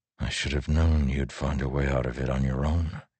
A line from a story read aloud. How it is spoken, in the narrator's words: he whispered to Navani